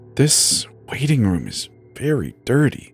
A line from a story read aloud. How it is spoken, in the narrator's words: she whispered to me absentmindedly